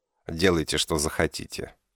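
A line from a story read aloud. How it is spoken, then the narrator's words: Displeased grumble. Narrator (Russian): буркнул я, поскольку разговор перестал мне нравиться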